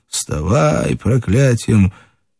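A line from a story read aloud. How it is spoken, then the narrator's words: Hoarse, off-key singing. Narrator (Russian): Чей-то хриплый голос нескладно затянул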